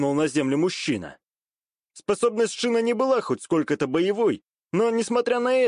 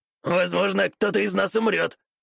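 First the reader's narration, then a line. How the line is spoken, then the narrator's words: Old man snorting. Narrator (Russian): хмыкнул старик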